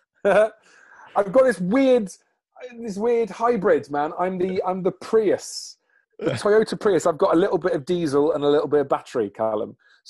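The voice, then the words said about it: Posh-sounding accent. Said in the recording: “sound posh”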